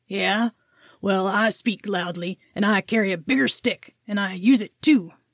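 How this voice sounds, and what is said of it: Poor cartoon cowboy character voice. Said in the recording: “Yosemite Sam ... that's a terrible impression”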